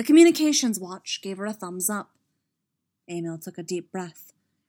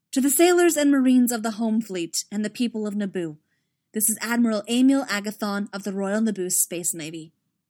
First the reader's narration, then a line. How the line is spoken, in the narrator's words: she said